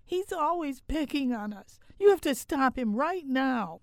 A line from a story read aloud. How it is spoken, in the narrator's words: our younger daughter hollering